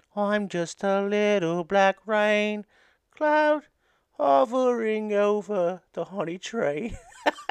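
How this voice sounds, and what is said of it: Winnie the Pooh impression. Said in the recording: “my Winnie the Pooh impression.”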